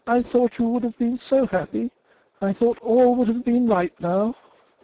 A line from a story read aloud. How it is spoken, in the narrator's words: she exclaimed, all but crying with vexation